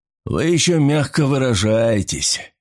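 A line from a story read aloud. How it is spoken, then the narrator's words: Gloomy. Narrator (Russian): мрачно заметил Фарнхолм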